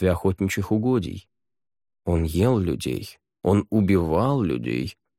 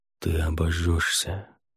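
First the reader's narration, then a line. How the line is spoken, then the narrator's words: Quiet. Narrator (Russian): тихо сказал он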